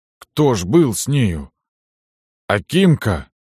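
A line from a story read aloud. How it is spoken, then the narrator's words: Trembling voice. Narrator (Russian): спросил Никанор дрожащим голосом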